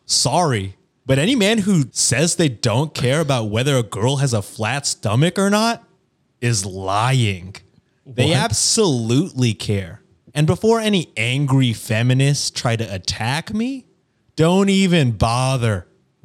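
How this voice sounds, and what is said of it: Mocking nerdy neckbeard character voice. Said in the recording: “I'll read it in a neckbeard voice.”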